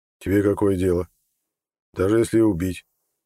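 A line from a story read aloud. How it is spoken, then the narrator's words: Gruff mutter. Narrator (Russian): буркнул Имар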